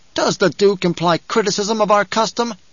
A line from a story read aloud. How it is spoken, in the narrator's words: The water shipper asked in an angry voice